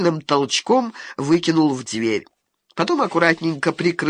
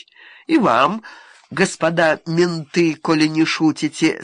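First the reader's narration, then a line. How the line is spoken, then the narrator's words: Calm reply. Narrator (Russian): спокойно ответил сидящий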